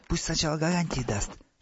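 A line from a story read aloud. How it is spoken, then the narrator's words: Whisper in Russian. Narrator (Russian): шепнул по-русски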